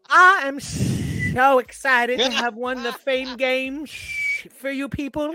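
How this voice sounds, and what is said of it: Imitates another person's voice. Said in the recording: “That is way too good of an impression.”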